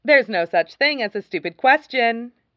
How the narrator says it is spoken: she says brightly

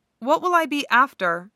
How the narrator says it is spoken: he asks

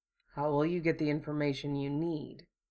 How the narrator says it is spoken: Hiro asked quietly

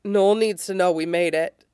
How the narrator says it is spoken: he says

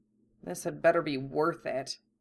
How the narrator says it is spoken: Harry muttered

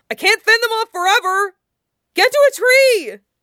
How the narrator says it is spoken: Wei Wuxian hollers

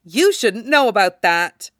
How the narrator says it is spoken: Obito says very sharply

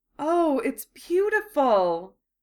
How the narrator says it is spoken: Hermione breathed

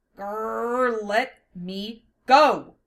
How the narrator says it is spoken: She growled

